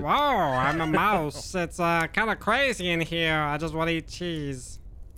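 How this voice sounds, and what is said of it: Mouse character voice. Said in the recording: “Give us the rat voice real quick, the mouse voice.”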